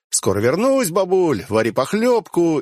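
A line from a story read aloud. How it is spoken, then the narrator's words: Casual shout over shoulder. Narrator (Russian): я по-свойски крикнул через плечо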